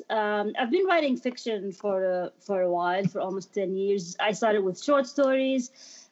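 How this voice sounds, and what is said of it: Jordanian Middle Eastern accent. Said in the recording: “I'm originally from Jordan, from the Middle East. I mean, hence the accent.”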